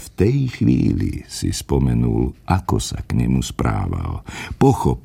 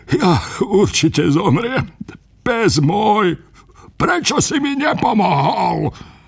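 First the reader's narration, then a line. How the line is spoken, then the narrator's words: Lamenting. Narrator (Slovak): nariekal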